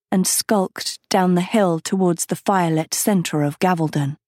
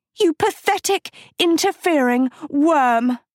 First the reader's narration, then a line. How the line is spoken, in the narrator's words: she screamed